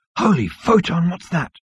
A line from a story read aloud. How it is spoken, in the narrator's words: breathed Seyfried